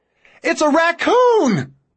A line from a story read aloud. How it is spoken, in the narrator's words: Ben shouts